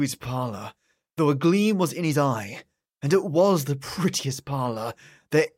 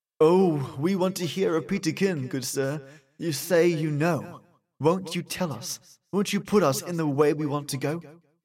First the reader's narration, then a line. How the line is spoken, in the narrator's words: So we pleaded